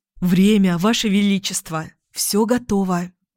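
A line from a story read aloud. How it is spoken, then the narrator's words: Thin, fawning voice. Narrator (Russian): один из приспешников и тонким заискивающим голоском сказал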